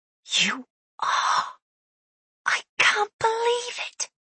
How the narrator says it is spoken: he whispered

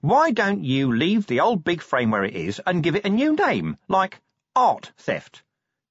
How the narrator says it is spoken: said Nobby cheerfully

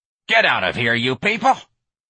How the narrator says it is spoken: Miss Trixie snarled

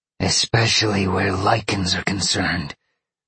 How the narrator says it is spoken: Roxy growled

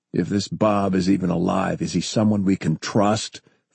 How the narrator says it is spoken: Forrest growled

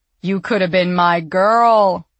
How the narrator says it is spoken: he wailed

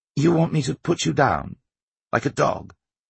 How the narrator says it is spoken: he said testily

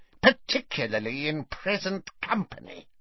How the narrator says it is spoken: snarled Bellatrix

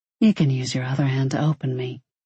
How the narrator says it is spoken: he murmured

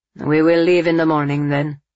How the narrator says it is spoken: Camillo said stiffly

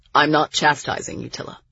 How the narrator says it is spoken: he said sharply

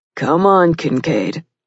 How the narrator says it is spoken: Nick said in a humorous voice

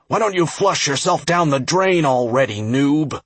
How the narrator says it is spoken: shouting

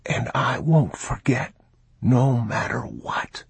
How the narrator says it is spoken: he whispered

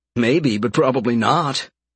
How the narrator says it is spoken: Gerald grunted

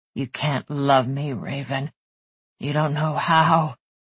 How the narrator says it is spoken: he whispered

